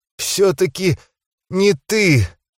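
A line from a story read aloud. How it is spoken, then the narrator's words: Strangled wheeze. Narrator (Russian): сдавленно прохрипела Ханиэль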